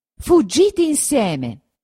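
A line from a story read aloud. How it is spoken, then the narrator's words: Shouting. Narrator (Italian): gridò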